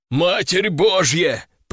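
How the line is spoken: Hoarse wheeze. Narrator (Russian): прохрипел он

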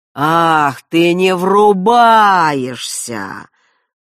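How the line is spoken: Old man's mocking drawl. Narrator (Russian): насмешливо протянул старик

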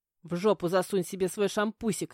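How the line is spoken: Snapping back. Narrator (Russian): огрызнулась

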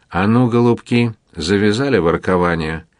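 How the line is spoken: Rude interruption. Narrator (Russian): Грубо вмешался качок

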